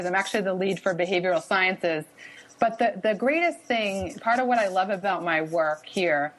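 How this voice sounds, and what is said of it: Boston accent. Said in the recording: “So maybe you can pick up on my wicked accent a little bit here”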